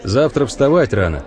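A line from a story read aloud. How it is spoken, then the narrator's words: Plain. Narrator (Russian): говорит Михаил Каменецкий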